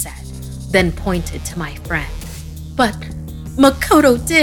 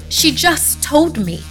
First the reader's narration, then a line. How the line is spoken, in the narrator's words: I cried